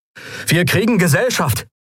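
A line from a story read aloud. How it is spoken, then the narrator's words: Called out. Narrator (German): rief Kai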